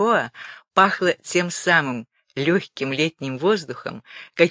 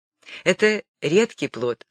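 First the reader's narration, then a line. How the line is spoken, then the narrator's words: Plain. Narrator (Russian): сказала Невская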